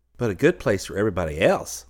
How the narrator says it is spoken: said Twinkle

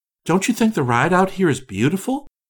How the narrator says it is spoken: Orissa, anxious to be sociable and to put the stranger at ease, said brightly

